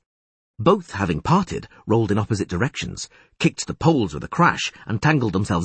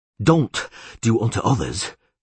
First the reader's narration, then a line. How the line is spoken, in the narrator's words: panted the Witcher